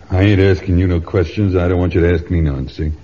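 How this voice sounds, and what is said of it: Accent from far away. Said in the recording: “By your accent, I would judge that you are far from home.”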